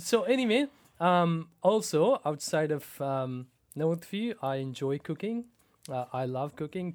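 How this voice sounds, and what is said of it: Slight Pakistani accent. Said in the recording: “a little bit of an accent ... born and raised in Pakistan”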